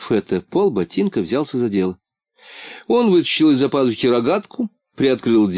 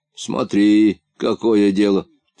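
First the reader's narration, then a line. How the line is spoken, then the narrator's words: Angry mutter. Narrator (Russian): сердито пробурчал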